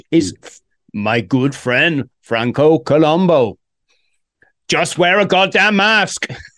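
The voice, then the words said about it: Poor Arnold Schwarzenegger impression. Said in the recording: “terrible Arnold impression”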